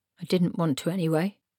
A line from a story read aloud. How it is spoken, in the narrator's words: he muttered to hide his confusion